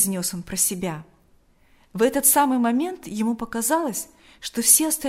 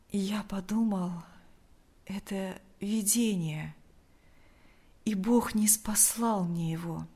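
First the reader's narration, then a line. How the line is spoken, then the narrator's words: Weak voice. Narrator (Russian): ответил Лукьян слабым голосом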